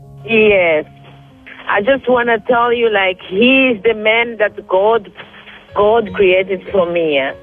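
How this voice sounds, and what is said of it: African-accented English. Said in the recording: “you don't have a French accent. You sound like you're from Africa ... You sound like you're from Ghana or Liberia, Côte d'Ivoire ... you have a beautiful accent”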